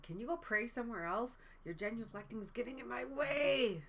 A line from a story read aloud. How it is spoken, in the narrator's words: he yelled at Father Mulcahy and he said